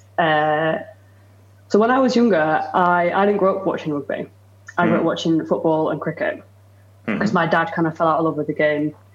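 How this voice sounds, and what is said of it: Northwest English accent. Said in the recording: “If you can't tell from the accent, listeners, I am from the northwest of England.”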